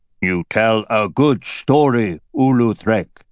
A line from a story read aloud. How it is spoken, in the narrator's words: Garshvag said, his voice sounding like the rumble of falling rock